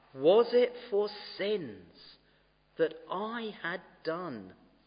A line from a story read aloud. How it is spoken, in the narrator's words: He groaned upon the tree